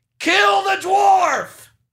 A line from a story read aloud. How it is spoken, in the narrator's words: a guy yelled out the window